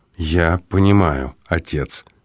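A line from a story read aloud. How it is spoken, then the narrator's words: Quiet reply. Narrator (Russian): тихо ответил Марк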